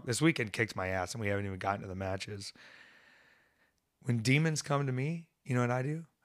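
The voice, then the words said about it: Hoarse, strained, worn-out voice. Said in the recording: “my voice is just ruined. I can barely talk.”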